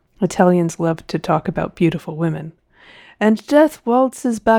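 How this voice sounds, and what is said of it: Usual voice. Nothing is said of it.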